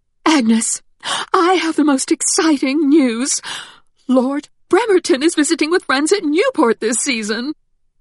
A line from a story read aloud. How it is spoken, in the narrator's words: Caroline's mother gasped